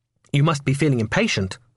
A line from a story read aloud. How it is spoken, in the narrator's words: I said, sensing a spiteful note in my voice, an insolent tone